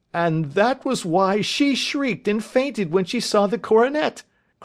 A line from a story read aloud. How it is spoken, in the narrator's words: cried Mr